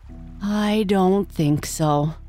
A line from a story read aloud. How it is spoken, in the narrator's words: Slightly, who said sadly